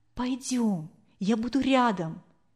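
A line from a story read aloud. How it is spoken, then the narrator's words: Whisper. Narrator (Russian): Анфиса зашептала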